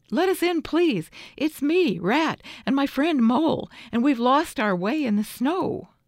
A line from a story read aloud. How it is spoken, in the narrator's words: cried the rat